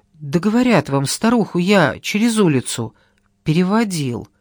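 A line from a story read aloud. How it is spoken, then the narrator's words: Uncertain. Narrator (Russian): неуверенно повторил Иван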